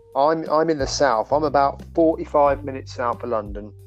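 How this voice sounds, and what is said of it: British accent. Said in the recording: “your voice with your accent ... what part of UK are you in?”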